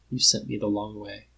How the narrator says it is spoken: Jack says very quietly

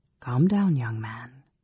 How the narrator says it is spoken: advised Alhanna in a soft voice, speaking Silvanesti

